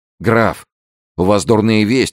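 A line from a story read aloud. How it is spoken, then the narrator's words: Pale young man's exclamation. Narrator (Russian): воскликнул молодой человек бледнее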